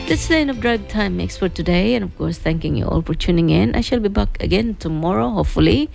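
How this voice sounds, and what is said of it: Slightly rough, congested voice. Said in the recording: “my voice is a bit crooked and I had a bit of a cold”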